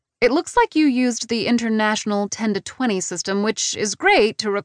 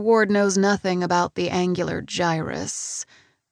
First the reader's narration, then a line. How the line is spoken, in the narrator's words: I murmur distractedly